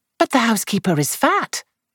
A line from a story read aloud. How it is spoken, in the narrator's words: Lou exclaimed